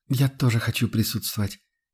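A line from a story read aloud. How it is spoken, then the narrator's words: Quiet but firm. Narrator (Russian): негромко, но решительно произнес Фридрих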